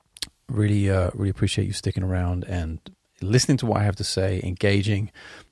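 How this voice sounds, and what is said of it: Hoarse, nearly lost voice. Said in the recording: “My voice is actually just gone. Can't stop coughing.”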